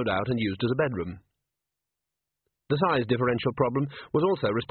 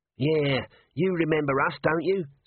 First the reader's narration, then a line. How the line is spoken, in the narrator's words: said Nobby, in a wheedling voice